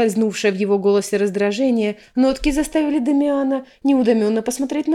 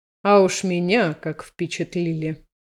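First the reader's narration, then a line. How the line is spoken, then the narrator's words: Through clenched teeth. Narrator (Russian): процедил архимаг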